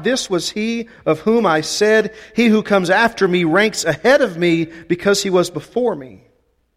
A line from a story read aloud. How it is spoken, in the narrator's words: John cried out